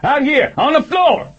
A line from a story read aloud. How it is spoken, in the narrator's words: he yelled